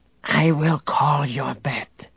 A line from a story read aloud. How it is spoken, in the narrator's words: the Gotal whispered to Han